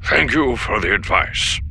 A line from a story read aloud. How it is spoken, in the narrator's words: Pelion said, his voice still frosty